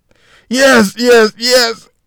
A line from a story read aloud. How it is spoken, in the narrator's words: Martin screamed out between moans of pain